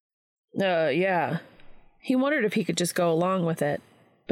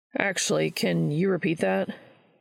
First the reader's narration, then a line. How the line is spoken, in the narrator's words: Charlie sighed softly